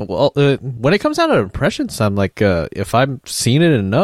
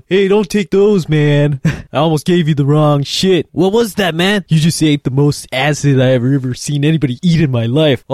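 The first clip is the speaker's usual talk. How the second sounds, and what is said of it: Cheech and Chong stoner impression. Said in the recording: “It reminds me of that Up in Smoke with Cheech and Chong... that was a great impression”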